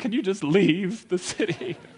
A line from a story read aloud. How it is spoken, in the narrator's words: they begged them